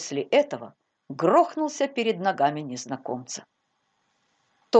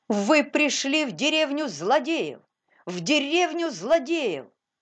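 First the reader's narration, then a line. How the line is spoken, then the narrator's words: Sudden shout. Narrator (Russian): Паули из Витерхофа вдруг закричал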